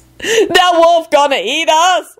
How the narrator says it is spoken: Lucretia wailed

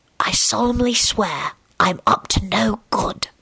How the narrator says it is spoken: he whispered

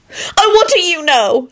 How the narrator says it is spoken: she shrieked

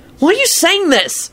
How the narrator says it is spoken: Harry shouted

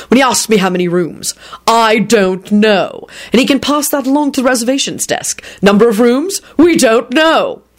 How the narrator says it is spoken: he barked back

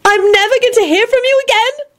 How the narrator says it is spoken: Elizabeth wailed

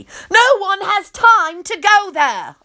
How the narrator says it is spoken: I holler

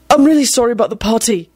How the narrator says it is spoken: said desperately

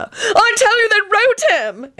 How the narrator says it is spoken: Antonin screamed

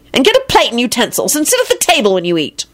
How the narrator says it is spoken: Elizabeth said angrily

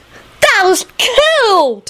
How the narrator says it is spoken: Teddy said happily

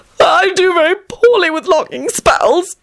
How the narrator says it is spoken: sobbed violently

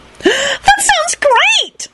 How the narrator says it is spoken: she squealed happily

